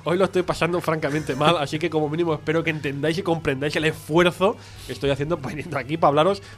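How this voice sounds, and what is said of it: Congested, blocked-nose voice. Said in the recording (Spanish): “tengo la nariz tan tapada ... Tengo la nariz chapada ... tengo alergia, tengo resfriado”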